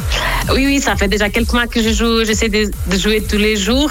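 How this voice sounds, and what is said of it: Portuguese accent speaking French. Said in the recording (French): “Avec ce joli petit accent, il est quoi C'est italien cet accent ... ce très joli accent portugais”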